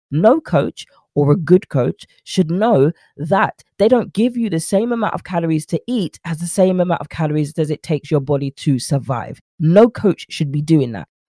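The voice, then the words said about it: Frustrated, agitated speaking voice. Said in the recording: “As you can hear in my voice, I got frustrated.”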